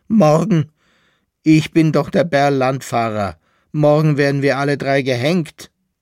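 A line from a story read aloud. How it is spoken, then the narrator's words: Shrill laughing cry. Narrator (German): rief der Berl-Landfahrer mit einem schrillen Lachen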